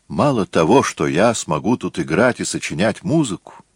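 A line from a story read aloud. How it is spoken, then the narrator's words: Cheerful. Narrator (Russian): весело говоря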